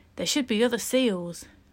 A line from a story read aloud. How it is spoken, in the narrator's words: sigh